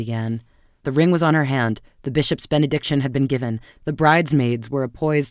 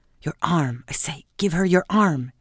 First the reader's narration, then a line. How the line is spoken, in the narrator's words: young nervously hissed